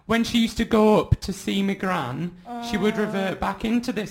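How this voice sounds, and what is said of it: Attempted northern English accent. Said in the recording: “let me try and get a sort of northern accent ... quite a soothing accent ... obviously I'm not very good at keeping up with”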